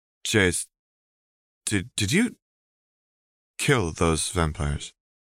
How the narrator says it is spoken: Rose asked hesitantly

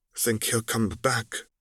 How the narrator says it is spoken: Tyrion asked quietly

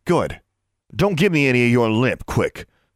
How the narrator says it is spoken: he snapped

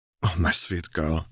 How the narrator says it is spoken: he sighed

